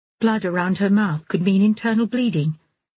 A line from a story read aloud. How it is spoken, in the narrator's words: said the unknown voice calmly